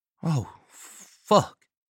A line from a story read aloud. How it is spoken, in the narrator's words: Balmer breathed